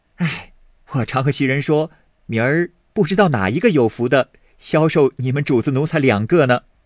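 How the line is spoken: Laughing. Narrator (Chinese): 宝玉笑道

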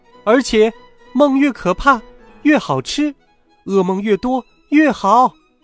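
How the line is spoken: Loud reply. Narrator (Chinese): 小精灵大声回答说

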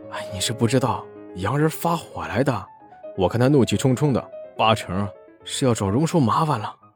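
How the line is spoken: Tsking, sighing. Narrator (Chinese): 伙计啧啧出声，摇头叹道

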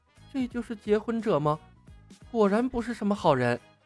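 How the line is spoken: Muttering to herself. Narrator (Chinese): 黑寡妇喃喃自语

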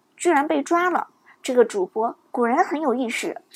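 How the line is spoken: Low, glum voice. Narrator (Chinese): 韩梦却郁闷的 低声说道

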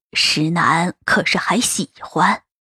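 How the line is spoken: Pleased, smiling low question. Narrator (Chinese): 老太太只道是事情已成，不免满脸笑意的看着锦葵，低声问着

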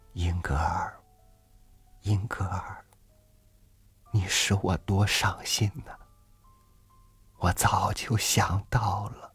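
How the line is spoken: Sighing. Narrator (Chinese): 一声叹息

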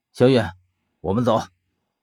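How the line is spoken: Cold. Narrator (Chinese): 薛冷冷的开口道

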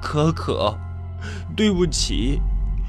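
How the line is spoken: Crying. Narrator (Chinese): 我哭了，我说

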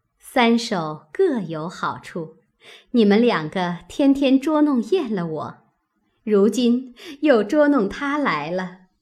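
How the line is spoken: Laughing woman. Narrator (Chinese): 宝钗笑道

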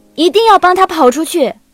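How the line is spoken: Yelling. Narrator (Chinese): 对傅小司吼了一句

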